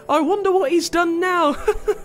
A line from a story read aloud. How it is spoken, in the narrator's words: chuckled Mrs